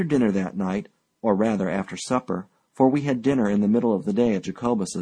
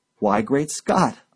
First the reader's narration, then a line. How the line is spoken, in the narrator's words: I exclaimed